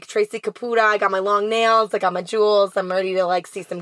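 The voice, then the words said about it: Long Island mom character voice. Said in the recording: “You could do the Long Island Mom one right now. ... the Long Island mom is very different”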